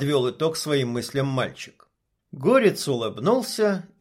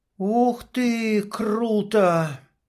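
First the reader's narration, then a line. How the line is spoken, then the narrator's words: Drawled admiringly. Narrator (Russian): восхищенно протянул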